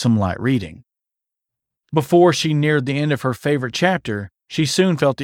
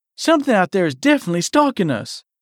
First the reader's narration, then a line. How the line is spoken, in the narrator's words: Eliza pleaded